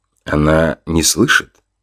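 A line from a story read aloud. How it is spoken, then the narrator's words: Amused snort. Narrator (Russian): хмыкнул Артем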